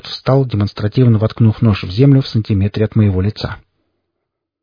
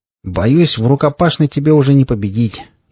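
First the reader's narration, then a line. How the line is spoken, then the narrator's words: Snide remark. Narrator (Russian): ехидно заметил Форд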